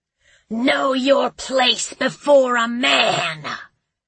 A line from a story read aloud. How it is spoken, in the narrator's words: she hissed